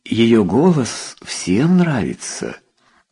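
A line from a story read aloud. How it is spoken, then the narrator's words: Gentle, affectionate. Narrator (Russian): ласково сказала Моник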